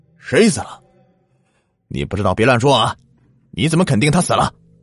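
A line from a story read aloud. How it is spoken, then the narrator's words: Loud. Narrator (Chinese): 我大声的说着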